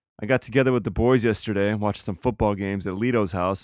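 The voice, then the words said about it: Hoarse, raspy smoker-like voice. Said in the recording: “I think I might sound a little different... I think I was yelling and screaming and getting a little rowdy with them. So as a result, I have this new smoker's sexy voice.”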